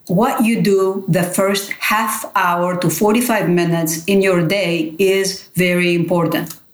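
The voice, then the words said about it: Greek accent. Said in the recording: “you have a beautiful little accent. You're from Greece.”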